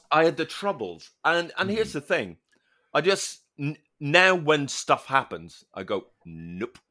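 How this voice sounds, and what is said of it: Northern Irish accent. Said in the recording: “having the accent you have, I think that's unnerving to people. I think there's something about the Northern Irish accent”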